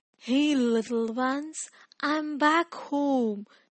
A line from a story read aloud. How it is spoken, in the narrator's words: he whispered softly